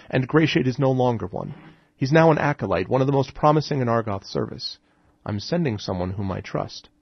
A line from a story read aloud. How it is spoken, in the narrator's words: Esper said calmly